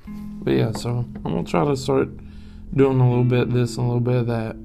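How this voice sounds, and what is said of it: Tired-sounding voice. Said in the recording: “I'm sorry if I sound tired. I am tired.”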